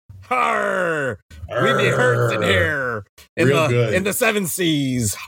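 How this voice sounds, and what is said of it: Pirate voice. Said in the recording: “You kind of sound like a pirate there”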